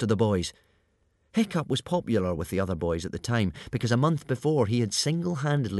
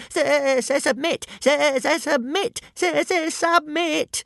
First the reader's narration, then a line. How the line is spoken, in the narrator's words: at the top of his voice